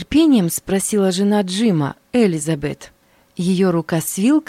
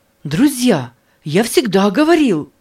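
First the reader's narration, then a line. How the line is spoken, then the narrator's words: Excited exclamation. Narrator (Russian): восторженно воскликнул Джим Эллиот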